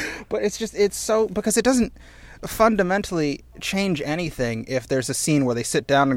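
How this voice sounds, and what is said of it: Usual voice. Nothing is said of it.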